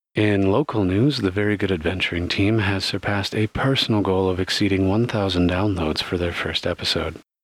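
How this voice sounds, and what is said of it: Soft soothing NPR newsreader voice. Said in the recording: “reading this entire mid-roll in what she calls my NPR voice ... in soothing whisper speak”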